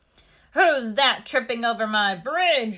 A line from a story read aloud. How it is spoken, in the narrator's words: roared the troll in a meaner voice